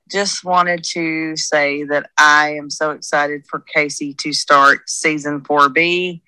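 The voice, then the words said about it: Tennessee Southern US accent. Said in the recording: “from Tennessee, if you can't tell by the accent”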